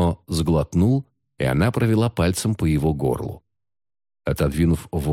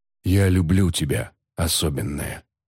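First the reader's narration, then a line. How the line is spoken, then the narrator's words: Quiet, tender. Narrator (Russian): тихо сказал он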